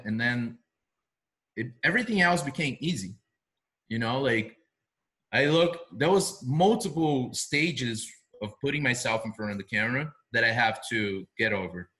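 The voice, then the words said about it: Noticeable non-native accent. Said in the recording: “I will most likely forever talk this way, funny, different ... Getting over my accent”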